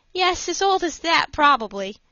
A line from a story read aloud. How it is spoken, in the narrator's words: said Fosdick, laughing